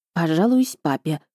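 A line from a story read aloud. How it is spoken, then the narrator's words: Whispered. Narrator (Russian): шепнула я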